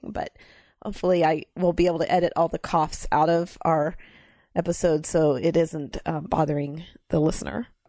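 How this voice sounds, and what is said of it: Rough, hoarse voice. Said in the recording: “I was sick... So I have bronchitis. Actually, I'm on the tail end of bronchitis. So if my voice sounds a little rougher than usual, that's because I'm still coughing.”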